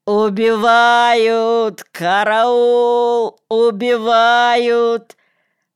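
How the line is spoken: Thin fake childlike shout. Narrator (Russian): кричал ненатуральным, тоненьким детским голоском

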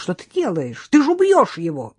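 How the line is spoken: Indignant young woman's exclamation. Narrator (Russian): Девушка возмущенно воскликнула

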